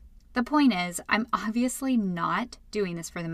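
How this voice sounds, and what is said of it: Usual voice. Nothing is said of it.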